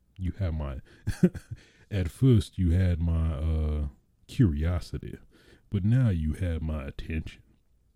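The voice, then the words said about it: Put-on Southern accent. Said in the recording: “this is my attempt at Leonardo DiCaprio's Southern accent, ... you be the judge.”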